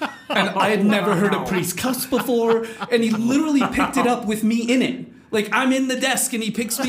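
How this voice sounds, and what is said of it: Usual voice. Nothing is said of it.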